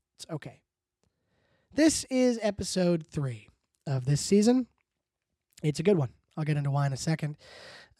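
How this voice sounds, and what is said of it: Sick, congested voice. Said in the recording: “Pardon my voice. I'm sick... I have both an ear infection and a sinus infection”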